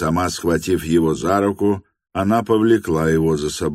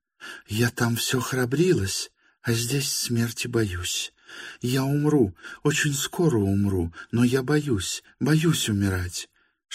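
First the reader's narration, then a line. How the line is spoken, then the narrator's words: Frightened whisper. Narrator (Russian): шептала она, крепко сжимая его руку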